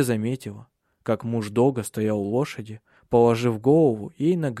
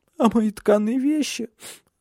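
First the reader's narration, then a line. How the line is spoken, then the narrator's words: Sobbing. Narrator (Russian): всхлипнула она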